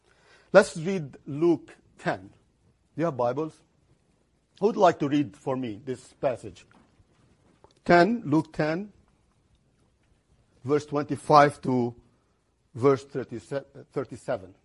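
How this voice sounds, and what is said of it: Speaks with a noticeable accent. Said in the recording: “you want to hear it in my accent”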